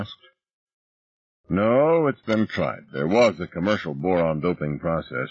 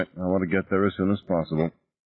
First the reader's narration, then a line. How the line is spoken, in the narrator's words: Ross said, her voice flat